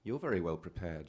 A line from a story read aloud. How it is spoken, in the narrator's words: she said